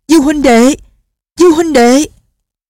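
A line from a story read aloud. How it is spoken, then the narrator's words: Shouting. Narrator (Vietnamese): Gã họ Giả thét lên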